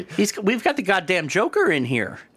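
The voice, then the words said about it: Put-on Minnesota accent. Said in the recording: “for some reason that office is in like Minnesota or something. That's the accent I was doing.”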